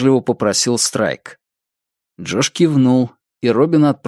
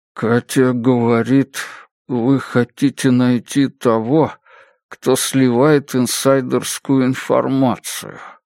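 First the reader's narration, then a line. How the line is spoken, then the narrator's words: Muffled, hollow voice. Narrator (Russian): глухим голосом произнес Джош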